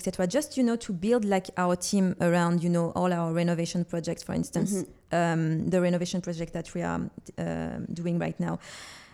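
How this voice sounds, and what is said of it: French accent. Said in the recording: “we are French, people can hear our accent”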